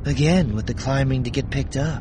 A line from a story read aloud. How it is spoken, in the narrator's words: Scarlet said with a sigh